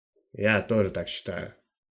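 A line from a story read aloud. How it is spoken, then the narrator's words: Grumbled. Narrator (Russian): проворчал Жарлоу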